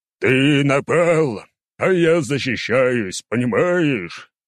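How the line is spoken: Growling. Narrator (Russian): рычал Нургал

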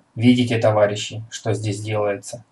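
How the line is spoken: Plain. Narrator (Russian): спросил политрук

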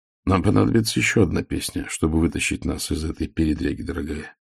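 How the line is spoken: Muttering. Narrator (Russian): пробормотал Ваймс

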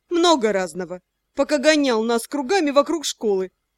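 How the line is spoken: Sighing. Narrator (Russian): вздохнула я

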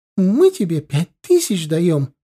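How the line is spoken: Young woman's shriek. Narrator (Russian): взвизгнула молодая

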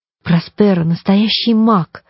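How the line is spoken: Excited whisper. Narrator (Russian): взволнованно прошептала Коломбина

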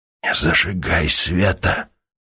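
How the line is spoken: Whispered request. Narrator (Russian): шепотом попросил Сергей

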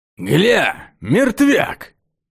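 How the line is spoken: Rough, hoarse voice. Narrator (Russian): Голос был грубый, с хрипотцой

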